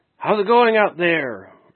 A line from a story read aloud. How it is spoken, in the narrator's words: he called out, would yell